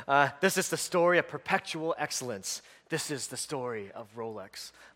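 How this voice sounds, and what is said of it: Put-on British accent, ad voiceover. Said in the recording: “it's always the guy in an accent ... It's in British accent.”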